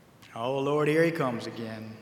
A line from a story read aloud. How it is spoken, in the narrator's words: they said